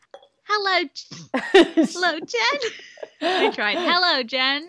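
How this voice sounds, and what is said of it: Put-on Australian accent. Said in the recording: “doing the Australian accent”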